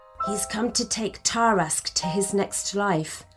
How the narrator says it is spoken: whispered Merlin

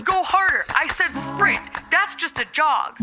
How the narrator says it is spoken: He yelled

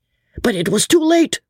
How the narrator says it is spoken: shouted the crowd excitedly

